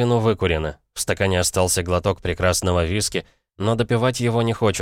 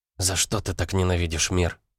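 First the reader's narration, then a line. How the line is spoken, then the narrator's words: Whisper. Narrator (Russian): прошептала Шанти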